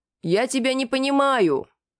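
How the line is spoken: Loud. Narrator (Russian): Громко ответил

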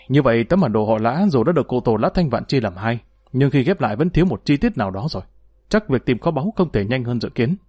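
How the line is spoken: Sighing. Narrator (Vietnamese): Vị nhị thúc thở dài

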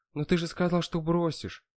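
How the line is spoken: Sad. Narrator (Russian): грустно вспомнила она

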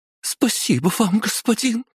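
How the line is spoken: Squeaked. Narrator (Russian): пискнула какая-то блондинка

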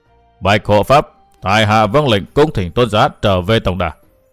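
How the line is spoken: Cold old man. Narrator (Vietnamese): Lão già mặt đỏ nói giọng lạnh lùng

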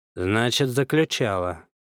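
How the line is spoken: Confident, then sad sigh. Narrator (Russian): уверенно проронил сержант и грустно вздохнул полной грудью

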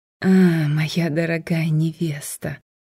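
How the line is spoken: Sickly-sweet drawl. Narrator (Russian): сладким до приторности голосом протянул он

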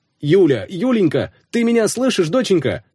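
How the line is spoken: Father shouting into phone. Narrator (Russian): кричал папа в трубку

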